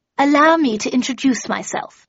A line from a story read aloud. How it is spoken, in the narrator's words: she said in a loud and strident voice